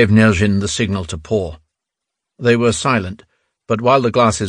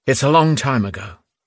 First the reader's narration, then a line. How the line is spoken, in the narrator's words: Nyazhin sighed